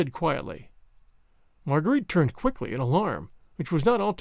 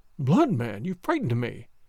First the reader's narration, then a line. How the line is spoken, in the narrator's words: she said with a forced little laugh